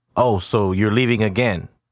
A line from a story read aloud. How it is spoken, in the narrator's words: Jabri yells out to his father